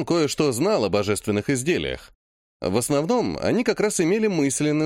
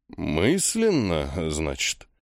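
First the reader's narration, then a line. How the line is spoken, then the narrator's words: Priest muttering. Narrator (Russian): пробормотал жрец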